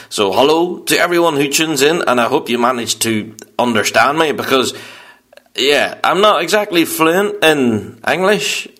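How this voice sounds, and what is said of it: Northern Irish accent. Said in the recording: “I'm kind of fluent in Northern Irish. So excuse the dodgy accent”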